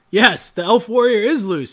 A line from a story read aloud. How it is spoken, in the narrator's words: cried